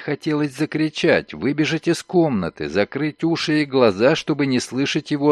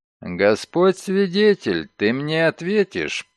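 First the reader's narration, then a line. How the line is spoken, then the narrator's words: Through gritted teeth. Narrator (Russian): процедил сквозь зубы Шерман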